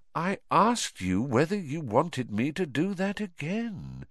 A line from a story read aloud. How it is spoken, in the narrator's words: said Voldemort softly